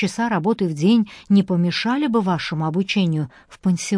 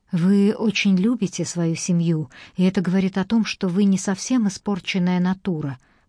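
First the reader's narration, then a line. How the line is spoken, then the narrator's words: Gentle. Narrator (Russian): мягко сказала леди Гренвилл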